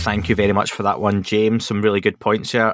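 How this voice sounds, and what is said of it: Scottish accent. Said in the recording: “hard to say in a Scottish accent”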